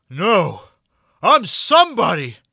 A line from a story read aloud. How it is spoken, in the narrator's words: he shouts